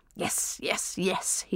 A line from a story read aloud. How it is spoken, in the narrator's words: he muttered as he ran upstairs